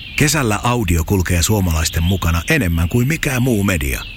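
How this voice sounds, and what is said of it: Whispering. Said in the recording (Finnish): “Psst... kesäkuiskaaja”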